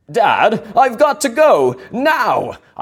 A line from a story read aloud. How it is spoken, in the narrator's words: cried